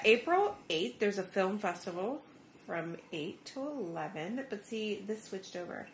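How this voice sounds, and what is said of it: Usual voice. Nothing is said of it.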